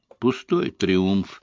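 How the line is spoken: Sigh. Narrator (Russian): вздохнул Эллери

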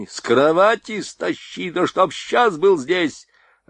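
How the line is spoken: Yelling. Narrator (Russian): орал Борейко

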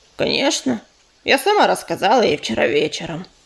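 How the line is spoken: Grumbling. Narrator (Russian): проворчала Пепелица

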